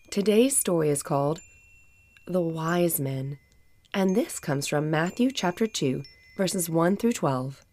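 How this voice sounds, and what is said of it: Sick voice, sounds a little different. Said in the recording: “I am still under the weather ... my voice may sound a little different”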